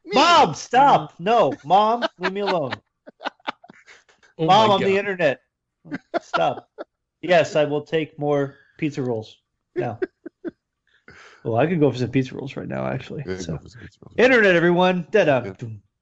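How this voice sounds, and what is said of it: Impersonation of the internet. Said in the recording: “do your internet impersonation ... The best impersonation of all time.”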